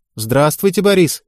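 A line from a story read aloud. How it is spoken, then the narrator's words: Cheerful greeting by women. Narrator (Russian): весело поздоровались спортсменки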